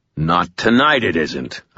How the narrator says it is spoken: I growled

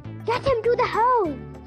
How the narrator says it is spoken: cried Silky

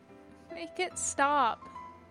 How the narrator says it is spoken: he whimpered between silent sobs, with the seeds of anger, of desperate fear

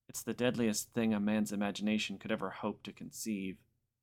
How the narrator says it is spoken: Bartok said flatly

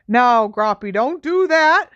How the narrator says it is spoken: shouted Hagrid

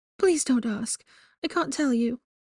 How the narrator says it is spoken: she begged

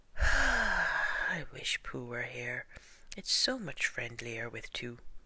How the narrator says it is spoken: gave a very long sigh and said

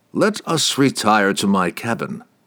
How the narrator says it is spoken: he said calmly

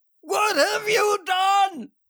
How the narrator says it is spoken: I yelled, the strength of the words forcing me to catch my breath

